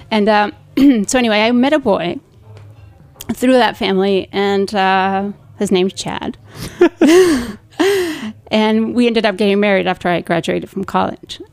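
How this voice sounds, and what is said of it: Mild Spanish accent. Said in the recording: “I do have a little bit of an accent, but, you know, it's not so strong Spanish”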